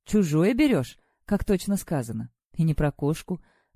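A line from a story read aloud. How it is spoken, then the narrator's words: Thoughtful. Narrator (Russian): повторила задумчиво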